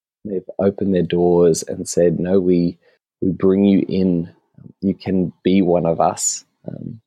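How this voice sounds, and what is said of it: Australian accent. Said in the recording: “you're Australian ... Just on the accent”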